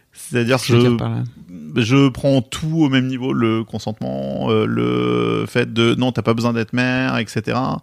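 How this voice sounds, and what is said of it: Bordeaux regional French accent. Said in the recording (French): “j'ai un accent bordelais pour tout le monde, je sais que ça choque”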